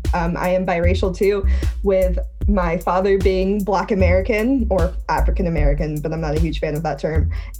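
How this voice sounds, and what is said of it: American accent. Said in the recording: “it's probably hard to tell about the British part with my American accent”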